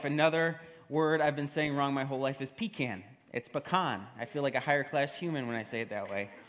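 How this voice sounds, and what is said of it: New York accent. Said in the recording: “I say it with my accent, my New York accent”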